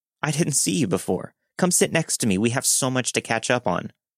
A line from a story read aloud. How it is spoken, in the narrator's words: a woman in her early 20s called out to me with a random name and said